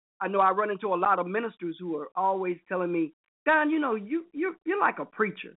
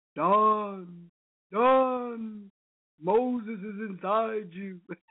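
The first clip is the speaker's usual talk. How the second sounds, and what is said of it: Bad imitation of Moses and God. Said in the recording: “a bad imitation of Moses and God”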